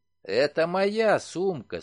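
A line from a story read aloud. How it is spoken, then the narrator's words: Calm. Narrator (Russian): спокойно сказал Уимзи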